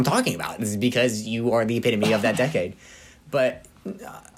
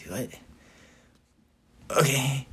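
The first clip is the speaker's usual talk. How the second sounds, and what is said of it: Sleepy, drowsy mumbling voice. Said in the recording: “That's my impression of you, sleepy. ... That's exactly what sleepy you sounds like.”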